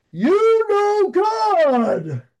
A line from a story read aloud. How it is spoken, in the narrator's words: He's yelling at me